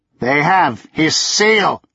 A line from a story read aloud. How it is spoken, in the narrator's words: he thundered